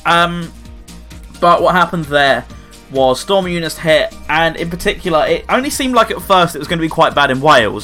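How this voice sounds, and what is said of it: Southeast English accent. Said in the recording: “I'm obviously not in Wales, as you can tell by the accent ... I'm in the southeast of England”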